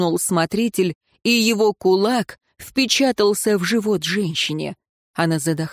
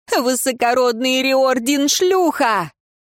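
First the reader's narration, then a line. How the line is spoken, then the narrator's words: Laughing exclamation. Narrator (Russian): Узница вновь хохотнула и воскликнула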